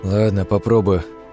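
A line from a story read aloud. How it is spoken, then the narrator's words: Grumbled. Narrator (Russian): проворчал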